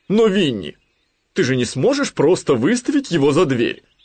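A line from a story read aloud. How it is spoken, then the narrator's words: Owl exclaiming. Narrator (Russian): воскликнула сова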